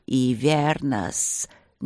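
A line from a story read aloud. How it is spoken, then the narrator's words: Reluctant hiss from above. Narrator (Russian): неохотно прошипели сверху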